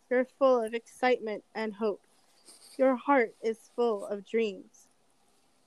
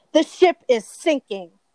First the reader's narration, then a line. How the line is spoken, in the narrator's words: Crandall shouted angrily